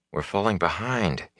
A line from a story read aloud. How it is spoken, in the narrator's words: he murmured